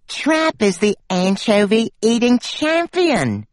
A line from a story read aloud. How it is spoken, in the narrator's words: she said dreamily